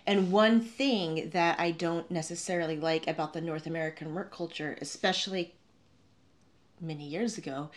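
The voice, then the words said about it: North American accent. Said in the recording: “you can probably guess from my accent that I'm from North America”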